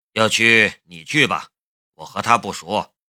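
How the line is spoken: Indifferent, flat. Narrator (Chinese): 夏雷淡淡的道

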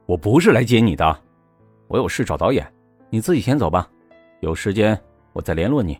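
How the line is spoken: Cold. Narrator (Chinese): 秦宇泽…冷冷的说

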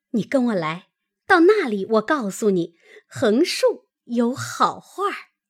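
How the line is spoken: Laughing. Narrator (Chinese): 他嫂子笑道

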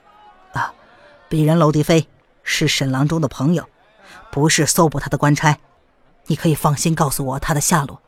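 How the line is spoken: Low voice. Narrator (Chinese): 娄迪飞低声的说

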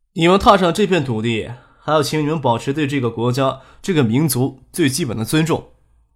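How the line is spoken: Flat, calm. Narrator (Chinese): 淡淡的说道

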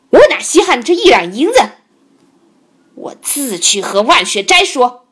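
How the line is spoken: Furious. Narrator (Chinese): 牛玉普大怒，说道

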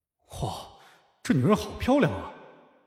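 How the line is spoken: Gasping in admiration. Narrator (Chinese): 忍不住倒抽了口凉气，感叹

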